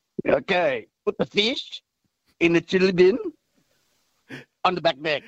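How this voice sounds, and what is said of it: Attempted Kiwi accent sounding Indian. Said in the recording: “your best Kiwi accent ... A bit more Indian than... this must be an Indian Kiwi this one.”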